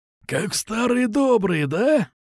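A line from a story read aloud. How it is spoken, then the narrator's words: Growled. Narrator (Russian): Прорычал он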